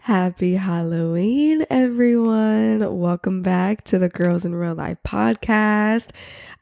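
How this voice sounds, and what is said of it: Congested, nasal, raspy sick voice. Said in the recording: “very sickly host ... tell from my voice ... I literally sound like a 60-year-old man who needs oxygen to breathe and talk ... very, like, congested ... I feel like I'm talking very nasally. My voice is very raspy”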